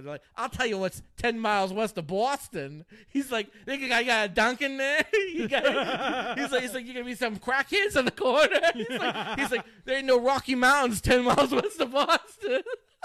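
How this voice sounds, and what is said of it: Put-on Boston accent. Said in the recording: “They're Boston accent.”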